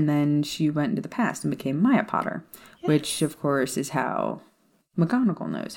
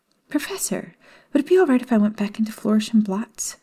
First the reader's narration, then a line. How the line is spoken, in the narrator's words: Hermione pleaded